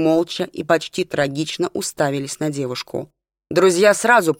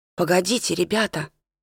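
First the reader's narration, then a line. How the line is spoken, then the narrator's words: Whisper, struck by idea. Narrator (Russian): прошептала Елена, осененная важной мыслью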